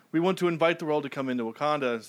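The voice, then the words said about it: Put-on Wakandan accent, Black Panther. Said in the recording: “I'll let you do the accent.”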